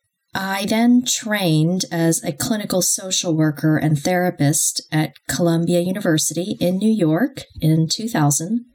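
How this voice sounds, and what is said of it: American accent. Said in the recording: “I grew up in the US, however, which explains my accent”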